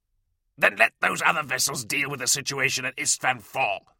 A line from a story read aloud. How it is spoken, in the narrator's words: snapped Delarax